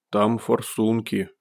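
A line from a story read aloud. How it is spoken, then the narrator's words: Big one grumbling. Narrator (Russian): буркнул большой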